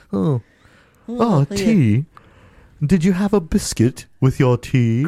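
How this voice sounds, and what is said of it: Bad fake British accent. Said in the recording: “you have a terrible British accent ... that's still bad”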